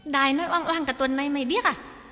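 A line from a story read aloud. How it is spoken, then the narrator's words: Irritated snapping. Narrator (Vietnamese): Nụ gắt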